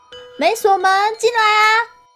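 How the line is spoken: Shouted again. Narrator (Chinese): 我又喊了一次

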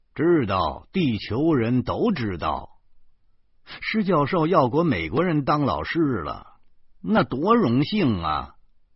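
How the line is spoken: Slightly sarcastic. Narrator (Chinese): 我便略带讽刺的说

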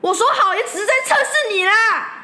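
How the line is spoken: Embarrassed angry shout. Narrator (Chinese): 我当下恼羞的大喊

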